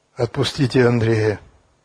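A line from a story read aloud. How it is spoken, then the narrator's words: Quiet. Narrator (Russian): негромко сказал Яков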